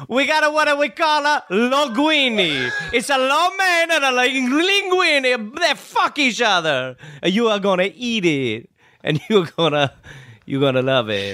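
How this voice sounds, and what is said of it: Mock Chinese-Italian accent. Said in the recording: “What is that accent? ... It's Chitalian.”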